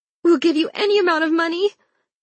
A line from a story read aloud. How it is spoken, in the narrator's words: whimpered Mrs